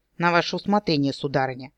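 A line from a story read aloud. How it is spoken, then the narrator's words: Grumbled. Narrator (Russian): буркнул мой подопечный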